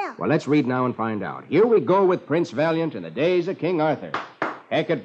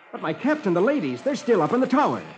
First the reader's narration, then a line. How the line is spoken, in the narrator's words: I cried